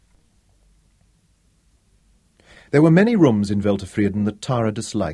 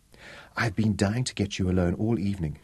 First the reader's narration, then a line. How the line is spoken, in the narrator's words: she whispered